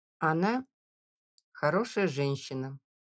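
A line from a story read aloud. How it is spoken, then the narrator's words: Conciliatory, deliberately calm. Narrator (Russian): примирительно и нарочито спокойно произнес отец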